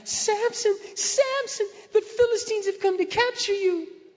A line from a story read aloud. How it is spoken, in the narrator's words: she cried out